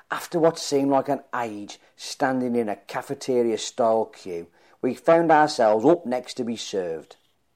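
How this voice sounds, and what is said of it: Speaker's own regional accent. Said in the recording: “totally misunderstood my accent”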